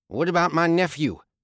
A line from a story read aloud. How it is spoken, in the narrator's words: Boyd snapped